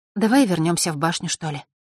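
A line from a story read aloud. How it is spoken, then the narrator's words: Sighing woman. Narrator (Russian): вздохнула она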